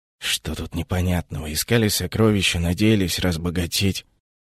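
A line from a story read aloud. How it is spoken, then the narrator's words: Hoarse grumble. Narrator (Russian): хрипло пробурчал Уга Ларсон, впервые за утро подав голос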